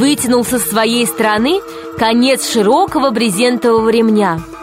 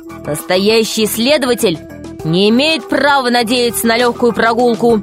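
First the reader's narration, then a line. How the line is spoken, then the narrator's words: Stern voice. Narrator (Russian): строго сказал Пашка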